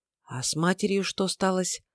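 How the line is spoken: Barely audible question. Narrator (Russian): Чуть слышно спросила Тайма

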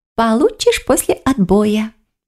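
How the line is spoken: Fox purring. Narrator (Russian): промурлыкала лиса

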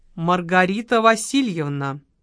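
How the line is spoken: Stern. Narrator (Russian): строго проговорил маркиз

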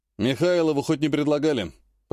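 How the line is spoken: Grumbled. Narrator (Russian): проворчал старшина

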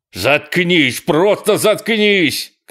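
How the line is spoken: Shouting. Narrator (Russian): кричал он

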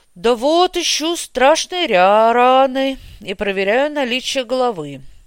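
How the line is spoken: Sighing, wry smirk. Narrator (Russian): вздохнув, усмехнулся Бестужев

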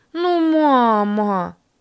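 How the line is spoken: Whiny capricious drawl. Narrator (Russian): капризно протянула Ларина

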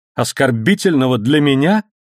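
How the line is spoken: Cold, calm angry exclamation. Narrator (Russian): воскликнула она, и в ее голосе снова звучал холодный и спокойный гнев

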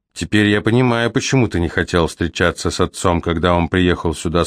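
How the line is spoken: Plain. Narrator (Russian): сказал мастер Руфус

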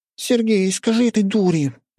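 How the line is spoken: Offended. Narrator (Russian): обиженным голосом заявила Оля

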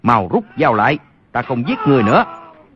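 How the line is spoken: Shaken loud shout. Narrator (Vietnamese): Y qua cơn kinh hoàng, quát lớn

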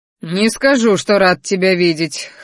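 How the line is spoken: Dismissive snort. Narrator (Russian): хмыкнул правитель

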